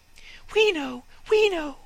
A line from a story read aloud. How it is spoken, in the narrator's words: chirped the sparrows